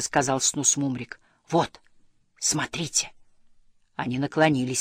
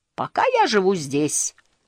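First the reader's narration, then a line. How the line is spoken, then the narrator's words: Cheerful reply. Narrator (Russian): весело ответил Снус Мумрик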